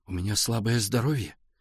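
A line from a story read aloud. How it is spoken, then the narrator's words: Quiet but firm. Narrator (Russian): тихо, но очень твердо ответил Валя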